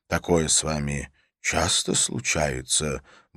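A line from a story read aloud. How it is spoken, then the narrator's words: Quiet confiding question. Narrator (Russian): более тихим и доверительным голосом спросил бородач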